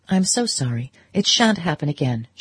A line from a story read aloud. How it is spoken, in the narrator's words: she answered, in the firm, bright tone she had learned from her mother